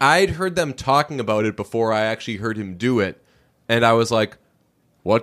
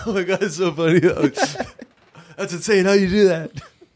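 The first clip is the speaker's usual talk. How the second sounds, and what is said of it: Imitates another person's voice. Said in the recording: “It's a Jimmy Fallon impression that I've been working on.”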